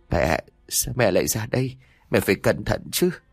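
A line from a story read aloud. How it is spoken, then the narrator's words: Tearful, crying. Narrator (Vietnamese): nước mắt cô khẽ rơi xuống, vừa khóc cô vừa nói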